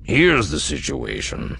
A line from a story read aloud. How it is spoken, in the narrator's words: said, his voice grave